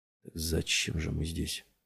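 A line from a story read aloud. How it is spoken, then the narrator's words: Quiet, preoccupied question. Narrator (Russian): тихо спросил Купер, не в силах думать ни о чем другом, кроме увиденного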